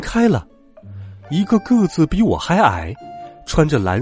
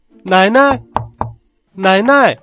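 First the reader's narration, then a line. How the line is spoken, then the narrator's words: Loud calling. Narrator (Chinese): 我高声的喊道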